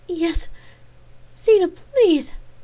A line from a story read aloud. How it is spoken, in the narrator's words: pleaded without any hint of shame